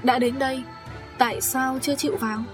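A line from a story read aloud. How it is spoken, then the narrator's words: Relaxed, laughing. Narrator (Vietnamese): Lâm Tiên Nhi bật cười lên và nói thật thư thả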